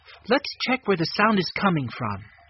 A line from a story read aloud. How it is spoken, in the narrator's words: Jessie said as calmly as she could